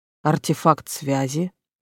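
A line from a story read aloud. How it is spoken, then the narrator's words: Gloomy. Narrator (Russian): мрачно сказала я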